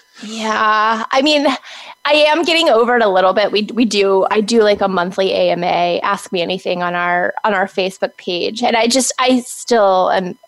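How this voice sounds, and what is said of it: High-pitched, baby-like voice. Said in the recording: “I have such a baby voice... Oh, it's so like high pitched... is like so high pitched”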